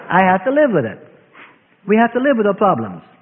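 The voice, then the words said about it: Noticeable accent. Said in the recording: “what I pleasantly call an accent”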